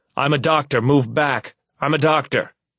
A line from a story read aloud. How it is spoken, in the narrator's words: I find myself shouting out, my voice heavy with emotion